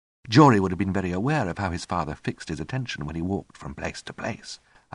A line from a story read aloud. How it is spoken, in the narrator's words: I said